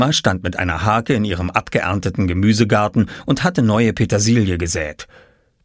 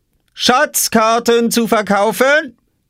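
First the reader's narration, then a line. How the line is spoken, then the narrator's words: Calling from behind crate. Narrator (German): rief Oskar hinter seiner Obstkiste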